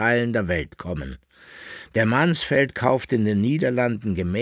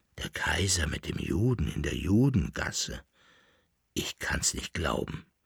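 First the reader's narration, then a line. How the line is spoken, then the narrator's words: Murmuring. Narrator (German): murmelte der Leibnizer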